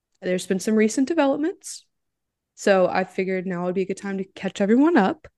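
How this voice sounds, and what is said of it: Sick-sounding voice. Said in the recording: “I'm a little sick, so I apologize for my voice”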